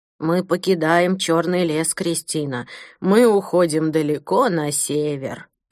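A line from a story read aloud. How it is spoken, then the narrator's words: Creaky old voice. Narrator (Russian): проскрипел старик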